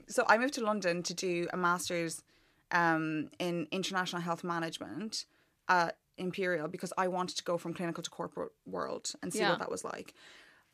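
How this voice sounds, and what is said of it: Irish accent. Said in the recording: “You can't tell with your accent ... I just said you had an Irish accent.”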